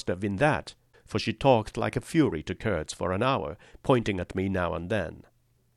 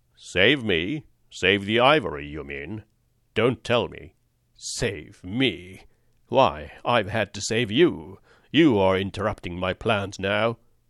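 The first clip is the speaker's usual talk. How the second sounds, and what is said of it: Deep male character voice. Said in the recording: “Kurt's deep voice”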